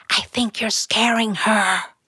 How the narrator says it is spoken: his girlfriend whispering

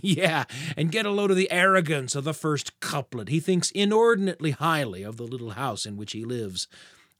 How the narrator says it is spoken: the other grown-up chuckling and saying

